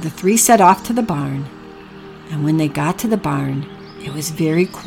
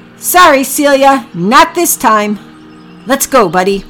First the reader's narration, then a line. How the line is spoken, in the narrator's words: Packy shouted